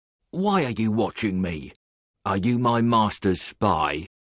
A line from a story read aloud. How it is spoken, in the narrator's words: A man speaks to him angrily and asks